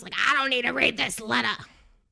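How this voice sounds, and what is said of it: Imitates another person's voice. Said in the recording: “That's my Tommy impression.”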